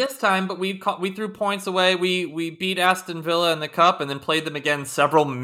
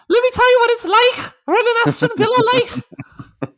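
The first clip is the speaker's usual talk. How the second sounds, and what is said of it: Imitates another person's voice. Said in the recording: “my Gerrard impression ... that's a great Gerrard ... it's very Leprechaun”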